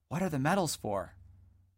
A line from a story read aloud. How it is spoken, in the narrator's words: whispering over his shoulder